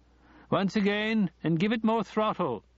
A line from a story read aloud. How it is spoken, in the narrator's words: he shouted